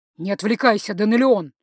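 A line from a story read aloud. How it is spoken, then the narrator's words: Said through clenched teeth. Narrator (Russian): процедил Линелир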